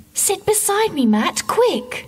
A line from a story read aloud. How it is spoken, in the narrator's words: cried Linda